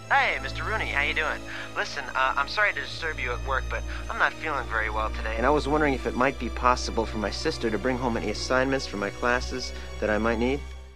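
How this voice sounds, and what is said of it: Very happy, cheerful voice. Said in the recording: “in a very happy voice”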